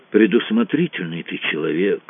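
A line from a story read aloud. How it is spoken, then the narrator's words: Grumbled. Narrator (Russian): проворчал Кацуба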